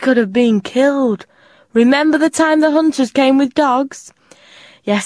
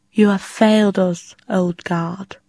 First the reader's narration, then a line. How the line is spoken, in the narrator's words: the queen said softly